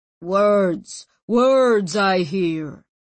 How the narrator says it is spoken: boomed the old man's voice

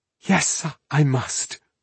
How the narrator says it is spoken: she whispered, her anger fading now

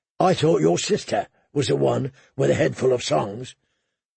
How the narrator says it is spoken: the hound growled

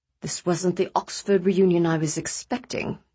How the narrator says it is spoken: Mehmet said to Nick in a low voice

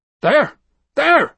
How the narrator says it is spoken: Peregrine was shouting

